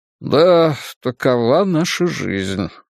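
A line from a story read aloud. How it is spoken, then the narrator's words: Sighing. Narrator (Russian): вздохнул папа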